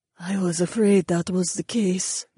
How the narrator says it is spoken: Jessamine sighed

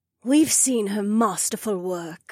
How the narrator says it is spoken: Edeny purred

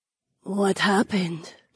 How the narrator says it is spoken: Jessamine breathed

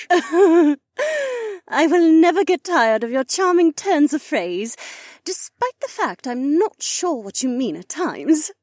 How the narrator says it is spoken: she said, stifle her giggles

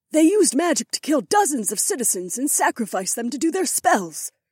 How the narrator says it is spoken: Isi snapped, and her cheeks flooded with color

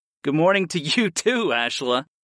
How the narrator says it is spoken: I laughed

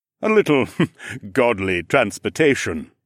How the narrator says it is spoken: he chuckled

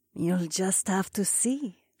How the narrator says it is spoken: she purred

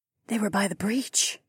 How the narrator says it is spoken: Lyca breathed

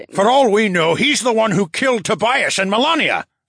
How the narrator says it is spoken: Phineas bellowed

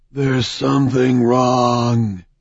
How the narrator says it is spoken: breathed

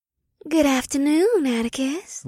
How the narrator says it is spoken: Lixis purred

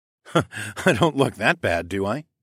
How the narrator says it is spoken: I chuckled

